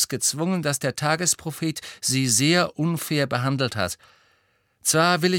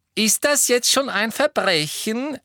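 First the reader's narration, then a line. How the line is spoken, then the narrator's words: Loud reply. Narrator (German): erwiderte Fred laut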